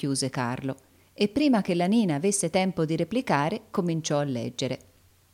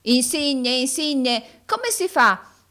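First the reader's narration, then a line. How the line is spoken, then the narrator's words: Shouted. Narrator (Italian): gridò Carlo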